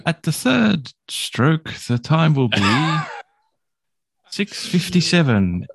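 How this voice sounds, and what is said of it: Put-on well-spoken British accent. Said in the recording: “Proper English. Speak proper English. ... Like royalty kind of accent. ... Not royalty. Just not royalty. Not pompous. ... snooty nosed. Just a nice, well spoken British accent.”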